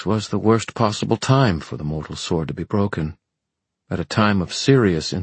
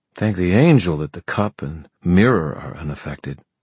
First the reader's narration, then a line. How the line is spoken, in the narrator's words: she sighed